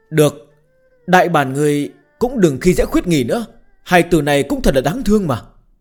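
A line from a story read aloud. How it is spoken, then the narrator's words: Sighing. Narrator (Vietnamese): Bạch Tiểu Thuần lại thở dài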